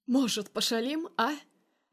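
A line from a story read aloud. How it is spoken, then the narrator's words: Wheezing with eerie laughter. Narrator (Russian): жутко хохоча хрипит парень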